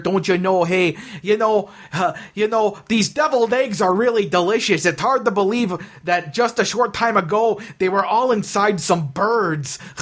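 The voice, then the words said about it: Put-on Northwoods Midwestern accent. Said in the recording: “more of a... Northwoods type of, you know, dorky person ... a little bit of a Northwood accent there”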